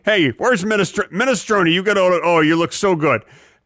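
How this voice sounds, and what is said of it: Prison guard character voice. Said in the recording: “A prison guard who thinks his prisoners are delicious bowls of soup ... That was a good impression.”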